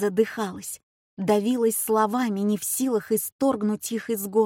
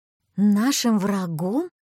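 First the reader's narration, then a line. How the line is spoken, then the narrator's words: High shaky exclamation. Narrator (Russian): воскликнула я не своим, высоким и нетвердым голосом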